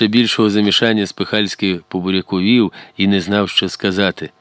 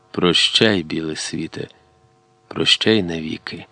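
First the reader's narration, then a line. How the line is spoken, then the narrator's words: Quiet, after a pause. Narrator (Ukrainian): помовчавши, тихо додав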